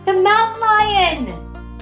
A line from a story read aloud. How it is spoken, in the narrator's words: He shouted